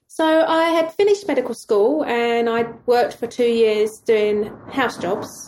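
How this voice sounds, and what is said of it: South East London English accent. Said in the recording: “originally from the UK, going by your accent? South East London.”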